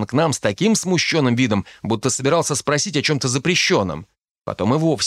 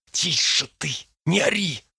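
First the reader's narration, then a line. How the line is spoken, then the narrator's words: Hissed. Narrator (Russian): зашипел тот на Дарта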